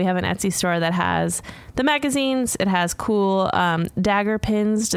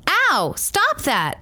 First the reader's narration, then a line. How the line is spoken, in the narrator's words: the daughter exclaimed